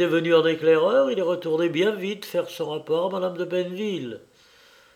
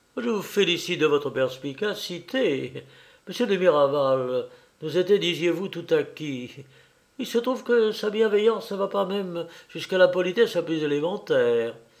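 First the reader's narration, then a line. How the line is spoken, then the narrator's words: Triumphant. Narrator (French): Madame Corneuil lui disait d'un ton de triomphe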